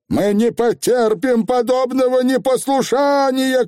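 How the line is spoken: Shout. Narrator (Russian): крикнула тетя Данута

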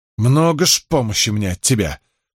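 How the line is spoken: Growl. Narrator (Russian): прорычала девушка

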